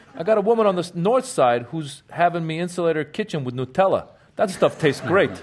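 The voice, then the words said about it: Put-on Chicago accent. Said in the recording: “That was a very authentic Chicago accent.”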